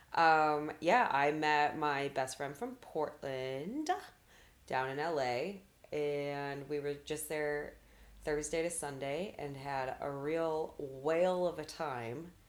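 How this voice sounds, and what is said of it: Raspy, sick-sounding voice. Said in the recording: “I came back sick. That's why I sound like this, dear listeners. A little raspy in the vocal area.”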